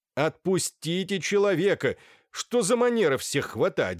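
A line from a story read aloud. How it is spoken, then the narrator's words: Shout. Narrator (Russian): закричал на швейцара доктор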